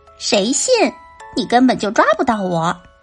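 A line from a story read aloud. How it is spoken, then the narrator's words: Mocking. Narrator (Chinese): 老鼠嘲笑道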